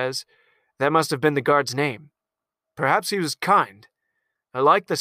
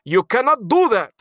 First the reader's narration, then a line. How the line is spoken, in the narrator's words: the consul yells